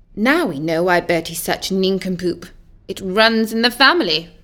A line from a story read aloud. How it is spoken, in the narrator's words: the wicked queen muttered to herself